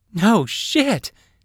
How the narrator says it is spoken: Saphira exclaimed

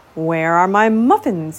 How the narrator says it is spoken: grumbled

